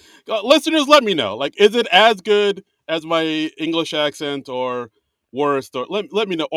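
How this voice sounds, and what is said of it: Usual voice. Nothing is said of it.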